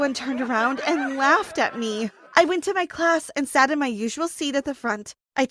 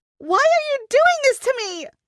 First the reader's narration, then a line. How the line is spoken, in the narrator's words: I screamed